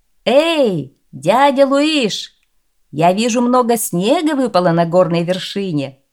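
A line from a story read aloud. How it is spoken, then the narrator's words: Shouted from a distance. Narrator (Russian): принц крикнул с дороги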